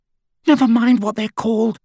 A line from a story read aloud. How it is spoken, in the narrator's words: said Hermione, a little hysterically